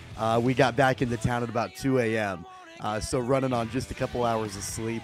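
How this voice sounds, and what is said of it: Slightly hoarse, worn-out voice. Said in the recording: “My voice is a little shot”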